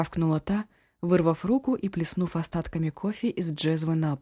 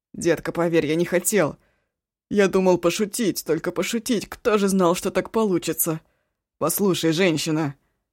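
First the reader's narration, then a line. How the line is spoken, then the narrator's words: Very loud yell. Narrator (Russian): заорал он так, что оба попятилась к плите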